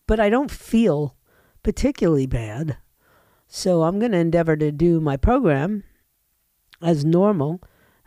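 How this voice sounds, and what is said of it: Voice of someone with a bad cold. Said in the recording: “I have a cold. I have a really bad cold. ... I got a cold in my head and I have a cold in my chest ... my voice gets scratchy or you hear a little clearing of the throat”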